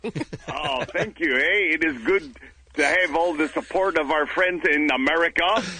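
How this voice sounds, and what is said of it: Very strong put-on accent. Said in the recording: “But I've never noticed this accent before. ... Very strong.”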